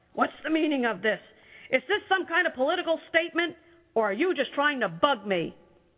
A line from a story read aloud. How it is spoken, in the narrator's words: Gregor's dad was really mad and yelled